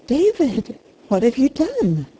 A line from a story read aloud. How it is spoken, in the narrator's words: gasped the amazed girl